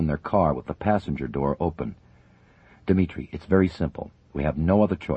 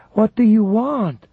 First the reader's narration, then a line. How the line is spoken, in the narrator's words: she cried, alarmed at the presence of GRU officers across the street